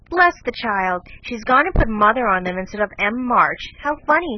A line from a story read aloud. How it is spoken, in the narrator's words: cried Jo